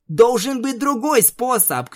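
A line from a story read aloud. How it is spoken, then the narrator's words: Shouted. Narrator (Russian): крикнула Твайлайт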